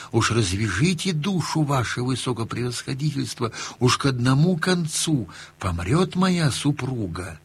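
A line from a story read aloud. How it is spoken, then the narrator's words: Meek whisper. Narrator (Russian): А купец и спрашивает его шепотком смиренно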